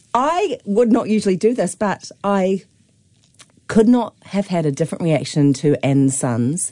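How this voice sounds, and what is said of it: Hoarse, sick-sounding voice. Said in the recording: “Please excuse my voice. It's not the greatest day for my voice ... You've got a bit of the lurg ... I've got a lurgy.”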